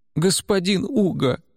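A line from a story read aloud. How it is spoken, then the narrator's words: Pleading. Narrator (Russian): взмолилась служанка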